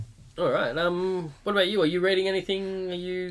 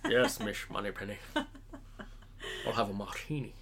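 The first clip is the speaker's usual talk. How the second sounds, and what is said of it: Put-on Scottish James Bond voice. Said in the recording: “I like that you put on a voice for him. ... That's my Bond voice. ... Sean Connery's got that iconic sort of Scottish accent.”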